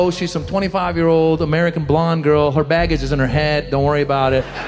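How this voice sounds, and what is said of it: Usual voice. Nothing is said of it.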